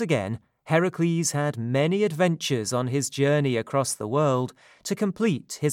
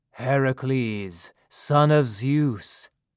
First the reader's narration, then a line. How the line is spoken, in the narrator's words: answered Atlas in his great voice